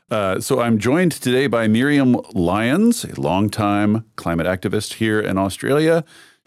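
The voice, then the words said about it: Scratchy voice. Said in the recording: “my voice sounds scratchy today, it is due to the aforementioned nonstop talking I've been doing in the past week”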